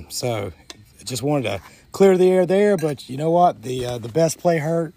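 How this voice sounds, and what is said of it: Voice strained from a cold. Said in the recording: “Battling a little bit of a cold this weekend, so my voice has been in and out.”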